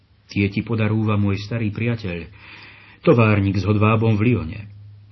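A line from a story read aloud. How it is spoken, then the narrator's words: Said with a smile. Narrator (Slovak): povedal s úsmevom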